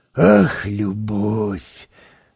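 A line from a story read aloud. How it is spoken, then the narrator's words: Sighing. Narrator (Russian): вздохнул он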